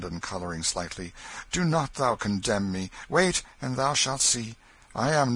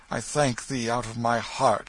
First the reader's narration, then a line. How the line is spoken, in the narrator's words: exclaimed Hendon, with a fervency which showed that he was touched